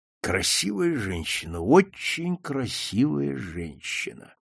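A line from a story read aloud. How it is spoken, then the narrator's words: Thoughtful drawl. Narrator (Russian): протянул задумчиво Макдональд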